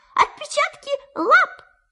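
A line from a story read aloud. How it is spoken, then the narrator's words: Excited squeal. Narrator (Russian): Пятачок даже взвизгнул от волнения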